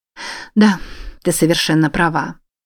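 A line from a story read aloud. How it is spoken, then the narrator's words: Sighing. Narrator (Russian): снова вздохнула она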